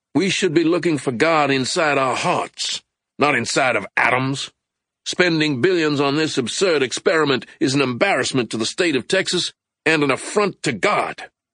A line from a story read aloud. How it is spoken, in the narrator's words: A news clip showed a young televangelist waving the best-selling book, The God Particle, and angrily shouting